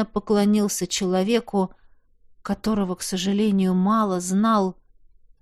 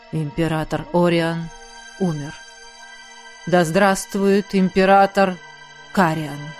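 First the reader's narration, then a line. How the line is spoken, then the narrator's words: Muffled announcement. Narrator (Russian): кто-то глухо объявил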